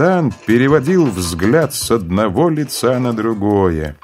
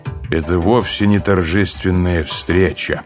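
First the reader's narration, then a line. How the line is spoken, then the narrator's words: Tired. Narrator (Russian): устало произнес он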